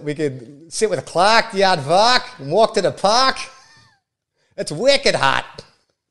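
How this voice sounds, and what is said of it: Put-on Boston accent. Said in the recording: “Your excellent impression ... I love the Boston accent”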